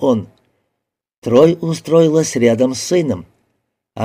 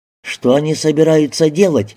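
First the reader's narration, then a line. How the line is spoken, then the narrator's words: Plain. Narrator (Russian): спросил Рики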